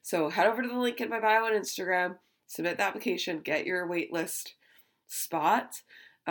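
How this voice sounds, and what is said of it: Congested, sick-sounding voice. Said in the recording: “As you probably hear in my voice, I still have this cold going on”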